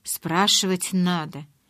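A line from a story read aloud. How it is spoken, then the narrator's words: Growled through teeth. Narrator (Russian): сквозь зубы прорычал Эдвард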